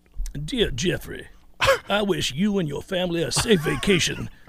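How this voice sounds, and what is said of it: Put-on South Carolinian accent. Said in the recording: “read Marcus's post in the chat in Brian Kelly voice ... That is just a South Carolinian sort of accent there.”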